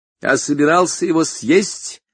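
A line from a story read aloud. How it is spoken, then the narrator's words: Loud and deliberate. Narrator (Russian): сказал он громко и раздельно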